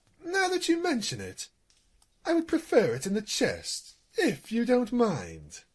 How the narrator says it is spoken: He hastily added

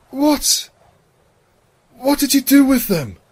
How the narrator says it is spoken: gasped

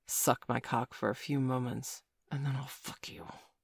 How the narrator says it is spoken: he whispered

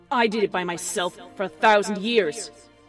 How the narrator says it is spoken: Celestia snapped back

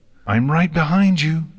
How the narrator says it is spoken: Twilight shouted to Rainbow Dash

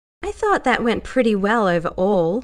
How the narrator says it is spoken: she said brightly

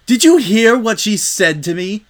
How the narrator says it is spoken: the unicorn screamed

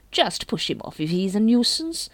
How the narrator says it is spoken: said Lady Rankin cheerfully

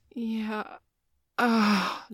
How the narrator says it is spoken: Joey groaned

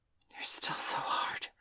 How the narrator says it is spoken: she whispered, grinning like a wolf

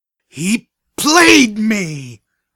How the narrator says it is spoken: screamed at the walls

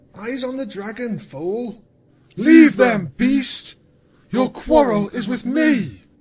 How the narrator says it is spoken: Luna thundered

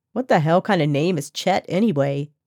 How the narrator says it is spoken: Maggie snorted

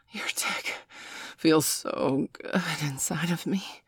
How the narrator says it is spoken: Miss Angeli gasped softly

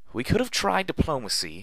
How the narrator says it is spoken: Velvet cried out as she ran for her life

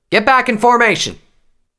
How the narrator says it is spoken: Her flight captain's angry shout

